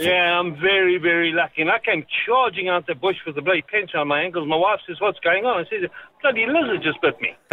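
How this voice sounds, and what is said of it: South African accent. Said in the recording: “I love that accent too, South African.”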